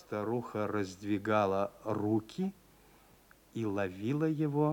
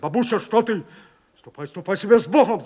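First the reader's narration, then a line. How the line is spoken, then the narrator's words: Shouted. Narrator (Russian): закричал он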